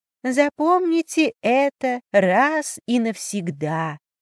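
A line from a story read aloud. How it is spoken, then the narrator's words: Giggling mimicry. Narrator (Russian): явно передразнивая интонации Нэн, хихикала Шане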